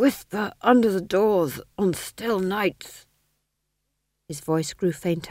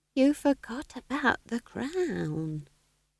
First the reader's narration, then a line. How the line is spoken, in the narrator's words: whispered Nanny Ogg